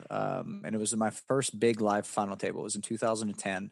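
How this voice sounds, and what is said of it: Southern American accent. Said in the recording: “you and I both sound like kind of Southern. I was like, yeah, I'm from West Virginia.”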